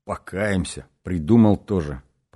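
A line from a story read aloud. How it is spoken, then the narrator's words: Grumbling. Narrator (Russian): проворчал он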